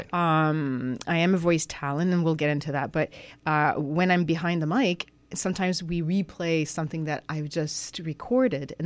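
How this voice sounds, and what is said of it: French accent in English. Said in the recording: “a big French accent. But it's not that bad.”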